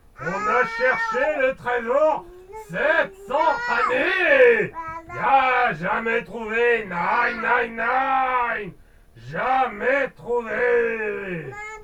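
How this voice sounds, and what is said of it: Terrible foreign accent in French. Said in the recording (French): “répond avec un accent terrible”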